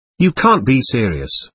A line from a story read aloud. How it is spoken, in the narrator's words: answered in a pleading tone